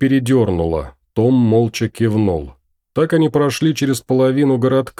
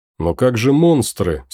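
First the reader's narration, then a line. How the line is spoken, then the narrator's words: Plain. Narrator (Russian): спросила Кейт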